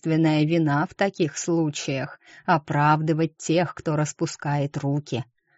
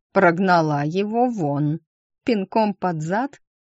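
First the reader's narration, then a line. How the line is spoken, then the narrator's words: Laughing. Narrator (Russian): Терезер смеялась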